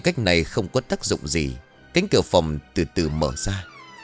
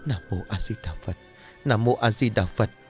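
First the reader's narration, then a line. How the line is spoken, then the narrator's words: Frightened muttering. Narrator (Vietnamese): Cô nín thở không dám cử động, miệng lẩm bẩm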